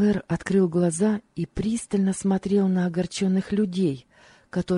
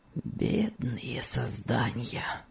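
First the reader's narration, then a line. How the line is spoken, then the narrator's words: Bitter self-reproachful whisper. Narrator (Russian): прошептал он, и выражение горького упрека себе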